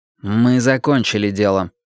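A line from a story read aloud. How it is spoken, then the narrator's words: Cold. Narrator (Russian): холодно сказал Уинстон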